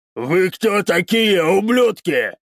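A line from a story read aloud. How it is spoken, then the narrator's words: Roaring. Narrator (Russian): проревел он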